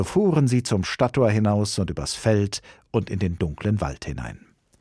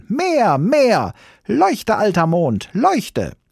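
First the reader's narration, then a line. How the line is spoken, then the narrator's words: Shouted. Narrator (German): schrie Hävelmann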